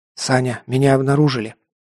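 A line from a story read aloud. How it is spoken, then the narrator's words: Whispered reply. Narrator (Russian): ответил шепотом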